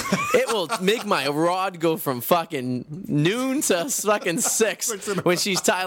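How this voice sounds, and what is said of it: Boston accent. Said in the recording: “the Boston accent ... They always say something about my accent”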